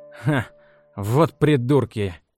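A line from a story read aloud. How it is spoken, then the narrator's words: Scoffing snort. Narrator (Russian): хмыкнул он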